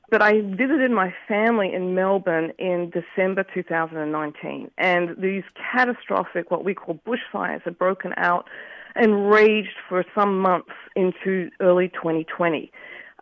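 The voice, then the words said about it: Australian accent. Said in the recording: “I'm Australian. You can hear it in my accent, I'm sure.”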